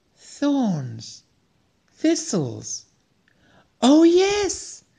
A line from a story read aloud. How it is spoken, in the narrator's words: exclaimed Kyomsom